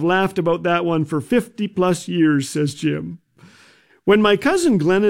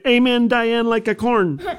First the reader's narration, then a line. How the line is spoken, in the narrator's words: she said very loudly